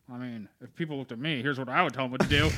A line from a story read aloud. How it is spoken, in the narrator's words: she's quietly been like